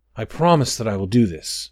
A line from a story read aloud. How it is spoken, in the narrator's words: said Orsa